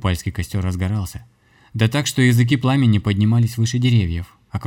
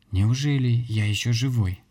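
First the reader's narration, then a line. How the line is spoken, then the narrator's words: Barely audible weak whisper. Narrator (Russian): произнесенные тихо-тихо, слабо шевелящимися губами, на самой грани слышимости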